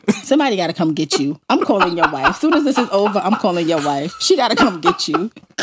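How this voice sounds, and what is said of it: Thick New York accent. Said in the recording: “why is my New York accent so damn thick?”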